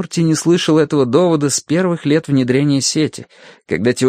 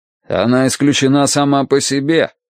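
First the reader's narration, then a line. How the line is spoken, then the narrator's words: Curt, angry. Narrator (Russian): сердито бросил Данворти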